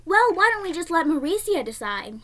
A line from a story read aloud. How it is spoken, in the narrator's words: Edna snapped